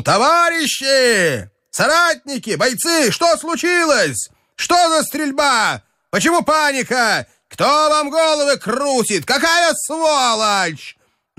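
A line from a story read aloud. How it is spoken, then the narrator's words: Shouted. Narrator (Russian): крикнул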